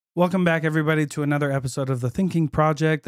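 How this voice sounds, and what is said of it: Hoarse, congested voice from a cold. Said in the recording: “my voice. Sounds horrible. So I'm fighting a cold ... my voice is kind of crazy.”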